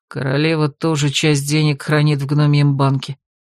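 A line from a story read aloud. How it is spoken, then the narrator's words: Gloomy, grim. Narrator (Russian): мрачно сообщил разбойник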